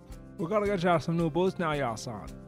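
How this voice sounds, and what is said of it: Put-on old rural Maine accent. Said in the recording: “the people in Maine in 1912 used that accent ... the accents were mostly work between Gunn and I”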